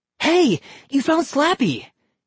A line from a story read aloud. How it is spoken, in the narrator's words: he cried